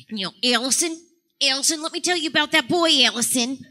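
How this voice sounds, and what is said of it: Imitation of a friend's mom. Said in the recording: “do the first voice ... That was my friend's mom.”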